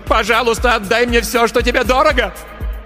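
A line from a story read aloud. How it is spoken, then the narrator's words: Screaming. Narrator (Russian): она закричала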